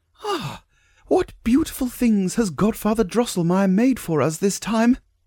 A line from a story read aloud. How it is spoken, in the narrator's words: Maria clapped her little hands together for joy and exclaimed